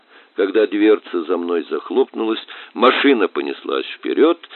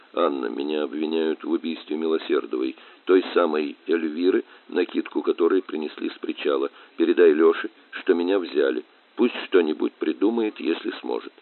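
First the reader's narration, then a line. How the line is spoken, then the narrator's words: Quiet. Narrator (Russian): тихо произнес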